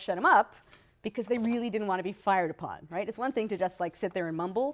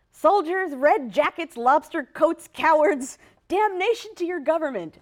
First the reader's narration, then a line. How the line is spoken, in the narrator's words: one particularly loud person yelled out